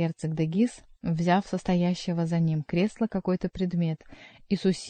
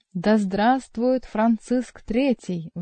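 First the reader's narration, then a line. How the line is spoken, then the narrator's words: Thunderous crowd in unison. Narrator (Russian): в один голос прогремело, заставив вздрогнуть церковные своды, тесно сплотившаяся толпа дворян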